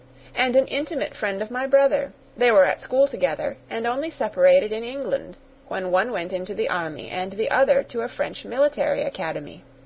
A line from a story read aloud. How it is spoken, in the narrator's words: cried the young lady